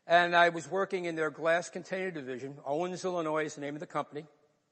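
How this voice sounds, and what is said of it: New York accent. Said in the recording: “Yes, I'm from New York. That's what the accent is.”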